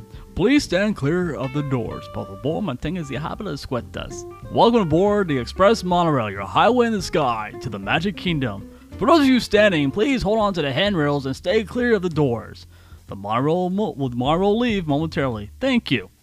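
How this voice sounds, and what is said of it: Imitates a monorail announcer's voice. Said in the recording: “You sound like a little nerd.”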